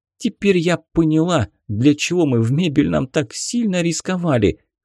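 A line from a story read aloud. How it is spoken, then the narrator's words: Joyful yell, girl. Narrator (Russian): радостно завопила девушка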